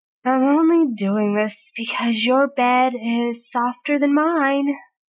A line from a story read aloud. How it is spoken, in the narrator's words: Merlin grumbled